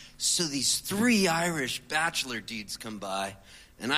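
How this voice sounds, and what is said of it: Usual voice. Nothing is said of it.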